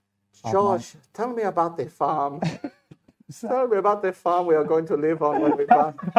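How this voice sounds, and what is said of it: Put-on Mexican-sounding accent. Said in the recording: “Doing it in the Brazilian sort of accent ... That's not Brazilian ... It's more Mexican made, isn't it?”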